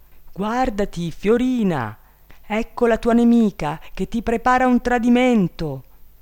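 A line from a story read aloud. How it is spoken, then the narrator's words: Bird shouting. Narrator (Italian): l'uccello turchino gridò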